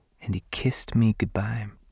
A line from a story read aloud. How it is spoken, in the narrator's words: she said softly